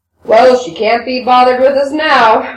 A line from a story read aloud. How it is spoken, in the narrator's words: Rakitin growled